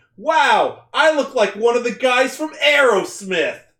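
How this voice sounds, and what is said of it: Imitates a cartoon Spider-Man voice. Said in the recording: “Want to hear my impression of him? ... I want Spectacular Spider-Man.”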